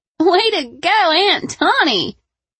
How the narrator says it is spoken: laughed

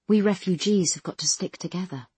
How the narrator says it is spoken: she said

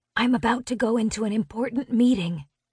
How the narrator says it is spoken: I whisper into my cell phone

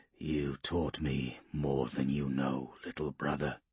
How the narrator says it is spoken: he growled

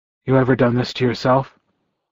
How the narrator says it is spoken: I asked him in a low voice

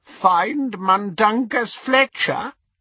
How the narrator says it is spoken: he croaked

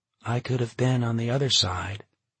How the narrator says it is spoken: she said quietly

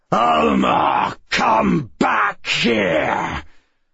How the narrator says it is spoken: bellowed in a bone-rattling voice

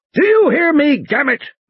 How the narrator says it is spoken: Muldoon bellowed

